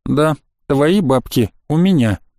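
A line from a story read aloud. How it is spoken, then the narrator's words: Calm reply. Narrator (Russian): спокойно ответил я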